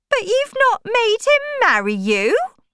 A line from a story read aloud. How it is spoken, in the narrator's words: cried her mother